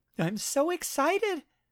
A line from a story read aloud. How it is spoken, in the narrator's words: The pretty Asian girl, exclaiming